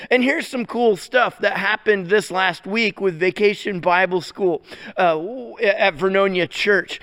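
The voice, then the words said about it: Hoarse, strained voice. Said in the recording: “You can notice maybe I have losing my voice a little bit. I mean, I've been preaching and teaching every day, all day long”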